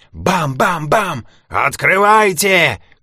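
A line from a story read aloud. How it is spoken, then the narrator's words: Policeman shouting. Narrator (Russian): крикнул один коп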